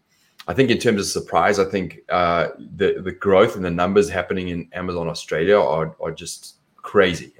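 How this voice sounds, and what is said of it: South African accent. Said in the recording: “My accent is different. It's South African”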